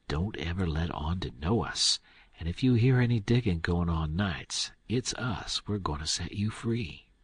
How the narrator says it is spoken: whispers to Jim and says

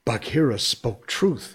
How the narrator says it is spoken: he panted

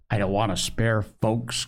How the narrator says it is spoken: grumbled Joel

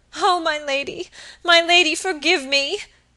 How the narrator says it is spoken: sobbed Phoebe

